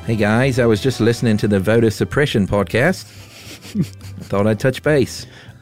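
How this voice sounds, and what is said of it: Put-on Australian accent. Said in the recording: “I'm going to call this Australian voting. ... Is that from like a Wallabies Corner accent? ... It's a good one.”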